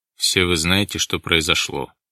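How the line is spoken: Flat colorless voice. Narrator (Russian): начал Шаповалов бесцветным голосом

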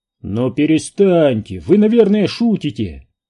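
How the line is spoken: Exclamation. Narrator (Russian): воскликнул сэр Найджел Холкском

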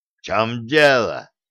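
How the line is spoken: Giant's roar. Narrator (Russian): взревел гигант

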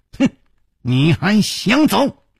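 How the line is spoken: Youth sneering coldly. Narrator (Chinese): 黑衣少年冷笑说

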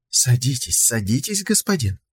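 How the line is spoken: Cooing. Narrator (Russian): проворковала она

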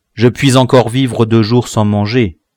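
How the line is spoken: Plain. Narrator (French): dit-il

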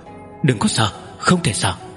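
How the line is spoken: Shy, soft. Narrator (Vietnamese): Công Tôn Yến khẽ kêu lên một tiếng, có vẻ e thẹn, sắc mặt đỏ bừng khẽ nói

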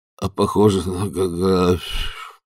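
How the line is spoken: Grumbled. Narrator (Russian): буркнул

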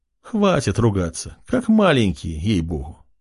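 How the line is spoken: Grumbling. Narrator (Russian): проворчала

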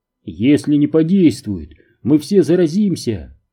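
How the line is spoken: Exclaimed. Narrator (Russian): воскликнул тот

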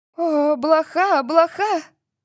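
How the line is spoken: Shrill shriek. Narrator (Russian): Латиша взвизгнула

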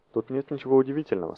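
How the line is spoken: Calm. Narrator (Russian): спокойно произнес Нов

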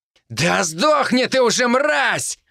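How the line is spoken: Roared. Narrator (Russian): взревел Вяземский

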